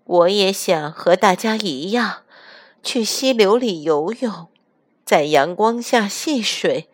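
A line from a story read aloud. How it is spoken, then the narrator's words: Sighing. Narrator (Chinese): 唉，它叹了口气说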